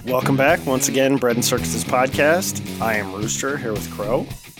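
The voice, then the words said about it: Sick, congested-sounding voice. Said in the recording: “You sound like an imposter ... I'm a recovering sick version of myself ... I've had a cold for about 2 days”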